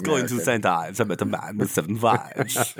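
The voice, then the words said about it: Shaky Jeremy Irons Die Hard accent. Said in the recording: “That's your Jeremy Irons? ... it's his accent from Die Hard, put through an English filter and cleaned up ... he couldn't even keep the accent going on the same word.”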